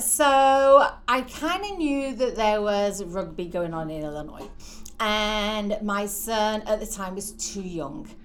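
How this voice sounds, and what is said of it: English accent. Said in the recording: “originally from a town called St Helens in the northeast of England ... So that explains your accent a little bit, which we love listening to.”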